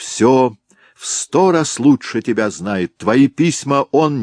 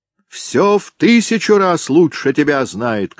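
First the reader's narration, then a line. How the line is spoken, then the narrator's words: Shouted. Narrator (Russian): крикнул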